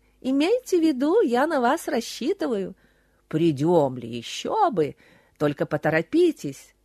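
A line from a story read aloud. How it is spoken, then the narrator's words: Laughing heartily. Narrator (Russian): снова заливалась хохотом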